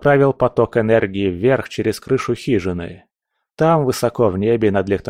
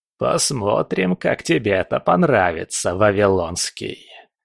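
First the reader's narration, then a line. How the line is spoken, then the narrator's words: Hiss. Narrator (Russian): прошипел папа Легба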